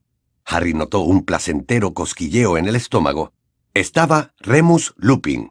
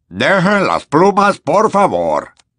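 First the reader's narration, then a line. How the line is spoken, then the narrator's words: Shrill squeak. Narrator (Spanish): chilló el profesor Flitwick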